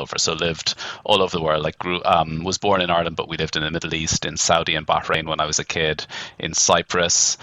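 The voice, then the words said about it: Irish accent. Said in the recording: “accent. So you're obviously from Ireland ... clearly still have an Irish accent”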